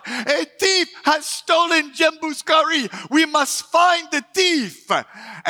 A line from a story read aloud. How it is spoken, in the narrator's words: the chief began to shout